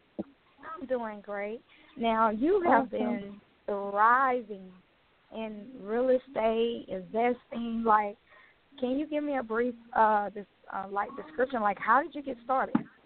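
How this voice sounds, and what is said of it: Slightly hoarse voice. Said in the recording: “lost my voice recently, so I'm like a little bit hoarse”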